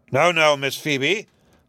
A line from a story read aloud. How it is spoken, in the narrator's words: said Judge Pynchon, in a voice as deep as a thunder growl